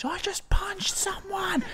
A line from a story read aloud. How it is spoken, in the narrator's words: he just said, screamed into my face